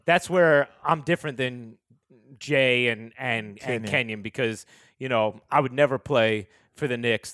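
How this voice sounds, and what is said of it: Deadpan Richard Jefferson impression. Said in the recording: “Richard's deadpan is very good”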